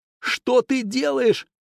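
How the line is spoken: Exclamation. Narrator (Russian): воскликнул он

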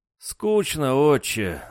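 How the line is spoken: Sigh. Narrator (Russian): вздохнул Дрюня

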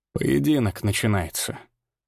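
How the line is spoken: Calm reply. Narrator (Russian): спокойно ответил Крагнар

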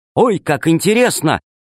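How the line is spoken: Exclamation. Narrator (Russian): воскликнула Алиса

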